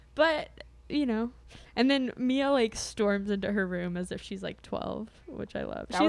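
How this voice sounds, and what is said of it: Usual voice. Nothing is said of it.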